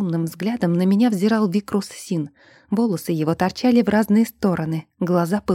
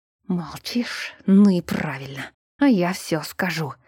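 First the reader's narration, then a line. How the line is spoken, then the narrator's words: Hissing in an unnatural voice. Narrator (Russian): прошипел студиос не своим голосом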